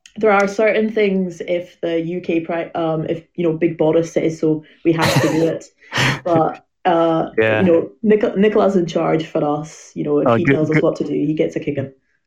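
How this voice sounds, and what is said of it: Scottish accent. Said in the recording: “you've got a lovely accent ... anyone from Scotland”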